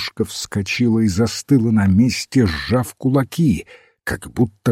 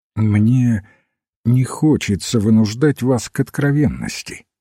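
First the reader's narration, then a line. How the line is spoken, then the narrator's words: Very calm. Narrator (Russian): сказал очень спокойно отец Браун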